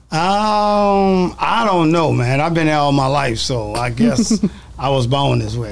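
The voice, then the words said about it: New Orleans accent. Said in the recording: “your accent sounds so much like everybody in New Orleans”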